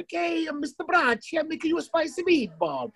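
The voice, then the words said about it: Over-the-top stereotyped Italian accent. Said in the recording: “the over-the-top, like, the accents ... Just like the Italian guy. If I can do the accent, I'm Italian ... If there was an Italian character now in a sitcom”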